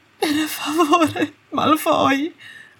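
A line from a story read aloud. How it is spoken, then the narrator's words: Sobbing. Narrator (Italian): singhiozzò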